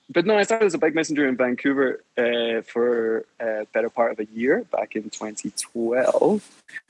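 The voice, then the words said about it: Mild Scottish accent, Canadian twang. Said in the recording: “a sort of weird Canadian twang to my otherwise not very Scottish accent ... your accent is pretty cool because it's kind of mild. Doesn't go in any direction ... It's all over the place.”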